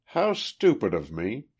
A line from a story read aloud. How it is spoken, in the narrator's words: she exclaimed